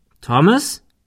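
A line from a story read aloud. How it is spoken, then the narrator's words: Calling out. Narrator (German): rief Ben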